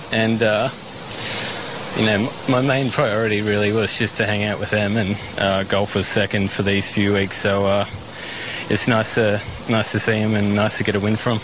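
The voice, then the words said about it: Australian accent, Brisbane. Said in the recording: “This guy just sounds like a kid from Brisbane.”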